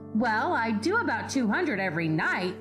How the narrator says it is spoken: he answered

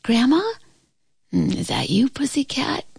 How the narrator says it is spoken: answered in a sleepy voice

